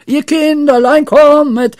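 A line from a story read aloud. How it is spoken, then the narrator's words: Shouting. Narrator (German): schrie Pippi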